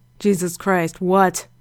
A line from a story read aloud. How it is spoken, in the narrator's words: Frank growled